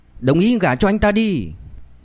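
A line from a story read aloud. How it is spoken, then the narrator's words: Noisy crowd clamoring. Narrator (Vietnamese): những người xung quanh và đám người Phạm Kim Hoa lớn tiếng ồn ào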